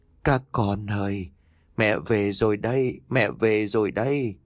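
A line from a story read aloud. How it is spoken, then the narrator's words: Old woman, ceaseless muttering. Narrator (Vietnamese): Bà miệng không ngừng lẩm bẩm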